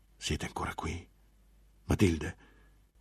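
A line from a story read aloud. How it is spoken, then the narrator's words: Monk whispering. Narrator (Italian): bisbigliò finalmente il monaco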